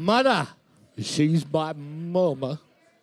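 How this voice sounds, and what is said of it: Imitated Forrest Gump character voice. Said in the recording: “Is that your Forrest Gump accent? ... That's the best I could do.”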